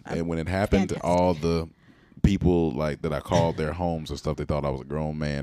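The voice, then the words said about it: Buttery smooth deep voice. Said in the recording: “You just have a very buttery, smooth, deep voice.”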